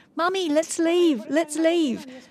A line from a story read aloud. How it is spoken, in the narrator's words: my daughter suddenly screamed